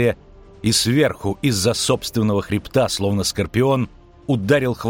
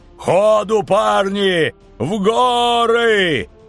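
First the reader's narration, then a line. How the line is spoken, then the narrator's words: Howling over the noise. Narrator (Russian): Взвыл Ярпин Зигрин, перебивая рев Нищуки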